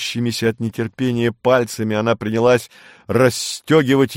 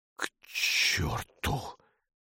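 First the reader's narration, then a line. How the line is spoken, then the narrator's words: Hoarse. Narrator (Russian): хрипло сказал Румата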